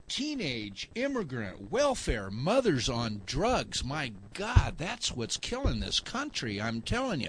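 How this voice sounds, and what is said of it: Sarcastic mock-outraged delivery. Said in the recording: “I'm being sarcastic”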